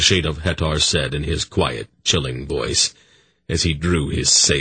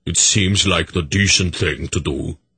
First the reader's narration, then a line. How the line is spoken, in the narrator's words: the apparition of Berak rumbled its agreement